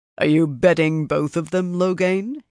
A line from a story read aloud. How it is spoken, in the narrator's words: He said in a deep voice